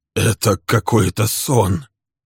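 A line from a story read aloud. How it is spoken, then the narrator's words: Hoarse muttering. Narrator (Russian): хрипло бормотал он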